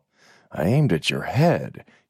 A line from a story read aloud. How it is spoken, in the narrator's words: said almost in a whisper